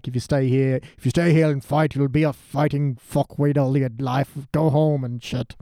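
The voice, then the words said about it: Impression of a TV character's voice. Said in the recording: “That's my Hound.”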